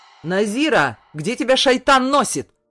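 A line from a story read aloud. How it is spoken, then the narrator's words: Angry yell. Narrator (Russian): заорал отчим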